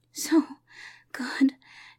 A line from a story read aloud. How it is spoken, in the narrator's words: gasped